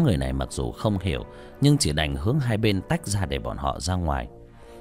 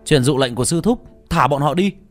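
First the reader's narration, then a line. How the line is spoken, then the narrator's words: Raised voice. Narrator (Vietnamese): một đệ tử cao giọng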